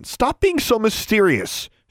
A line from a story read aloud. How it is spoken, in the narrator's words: she snapped